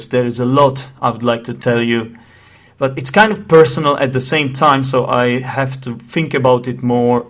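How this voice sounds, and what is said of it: Czech accent. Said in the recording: “I'm Czech, in case you haven't noticed my accent”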